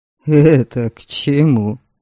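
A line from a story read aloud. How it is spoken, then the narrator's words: Skeptical grunt. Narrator (Russian): Недоверчиво хмыкнул Велим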